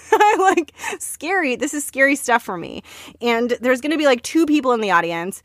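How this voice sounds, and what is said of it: Panicked, nervous voice. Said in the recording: “hear the panic in my voice?”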